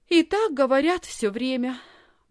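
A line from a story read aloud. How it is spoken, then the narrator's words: Sighing. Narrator (Russian): вздохнула Лисхин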